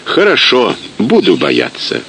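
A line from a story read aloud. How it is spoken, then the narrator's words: Playful snort. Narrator (Russian): хмыкнул Сталин шутливо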